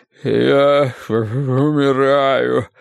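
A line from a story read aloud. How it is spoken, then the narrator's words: Moaning. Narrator (Russian): стонал Уве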